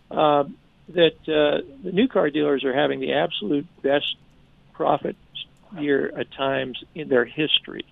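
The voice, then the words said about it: Hoarse voice. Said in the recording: “I apologize for my hoarse voice today.”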